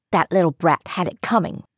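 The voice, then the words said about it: Child with a fake put-on accent. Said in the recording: “you can drop the accent. I know it's fake.”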